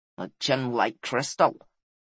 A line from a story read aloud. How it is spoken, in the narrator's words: muttered the giant